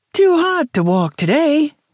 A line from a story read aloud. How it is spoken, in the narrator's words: she hollered gaily over the music